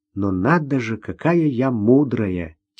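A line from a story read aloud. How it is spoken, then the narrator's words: Soft laugh. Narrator (Russian): тихонько рассмеялась Ирина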